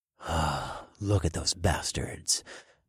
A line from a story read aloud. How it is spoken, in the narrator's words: I muttered through my grin